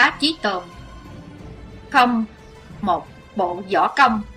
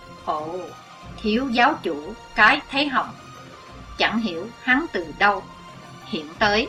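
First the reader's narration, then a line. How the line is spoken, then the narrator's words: Soft whisper. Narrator (Vietnamese): Chí Tôn khẽ thầm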